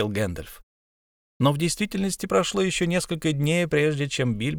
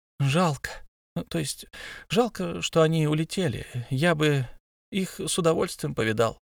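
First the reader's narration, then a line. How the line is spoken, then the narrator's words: Sleepy voice. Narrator (Russian): сонным голосом произнес Бильбо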